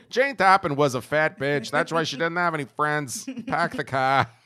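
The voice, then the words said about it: Put-on New England accent. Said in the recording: “I should do that in a New England accent.”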